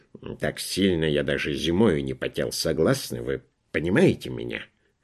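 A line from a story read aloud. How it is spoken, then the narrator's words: Grumbling. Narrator (Russian): проворчал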